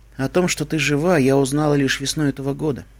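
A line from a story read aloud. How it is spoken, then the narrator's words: Sad. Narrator (Russian): печально сказала Твай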